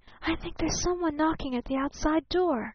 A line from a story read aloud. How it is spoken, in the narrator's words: she whispered